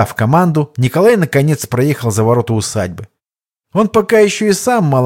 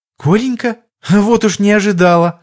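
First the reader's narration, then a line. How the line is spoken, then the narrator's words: Joyful greeting. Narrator (Russian): радостно встретила его Хованская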